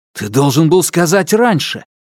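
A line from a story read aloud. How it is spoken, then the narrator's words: Exclaimed. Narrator (Russian): воскликнул Алексей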